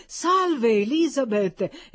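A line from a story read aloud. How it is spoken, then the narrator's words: Exclaimed. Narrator (Italian): esclamò Peter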